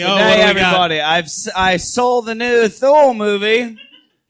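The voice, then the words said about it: Put-on Australian-style accent. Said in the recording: “talking like an Asgardian ... he's from down under Asgard”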